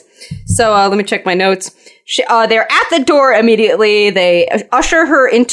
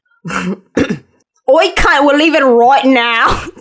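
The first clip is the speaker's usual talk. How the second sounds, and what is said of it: Poor Scottish accent sounding Australian. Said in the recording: “He's very, very thick Scottish accent ... That every accent can't be Australian. ... I can't do a Scottish accent.”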